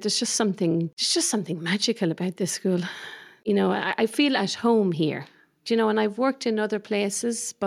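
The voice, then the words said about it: Irish accent. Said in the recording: “coming from Ireland. It's a beautiful accent coming through”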